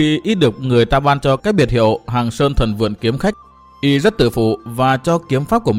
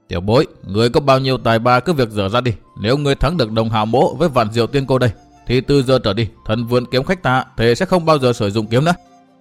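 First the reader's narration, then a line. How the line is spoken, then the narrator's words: Angry, cold laugh. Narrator (Vietnamese): Đồng Hạo càng tức giận thêm, cười nhạt đáp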